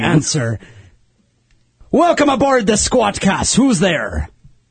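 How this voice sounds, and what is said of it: Bad pirate accent, sounds Irish. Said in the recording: “you guys are doing this pirate thing... It sounds an awful lot like a bad Irish accent.”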